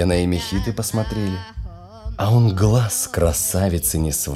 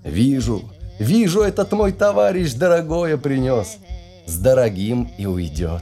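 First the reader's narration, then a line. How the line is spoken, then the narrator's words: Quiet speech. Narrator (Russian): Менгпоших засмеялся, сказал тихонько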